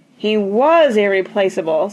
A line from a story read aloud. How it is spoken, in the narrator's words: said Grandma mournfully